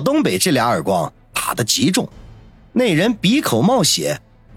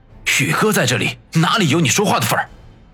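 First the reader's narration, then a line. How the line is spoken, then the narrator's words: Harsh shout. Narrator (Chinese): 小东北口中喝道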